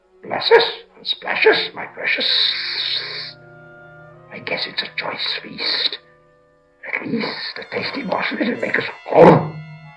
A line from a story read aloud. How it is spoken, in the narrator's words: whispered and hissed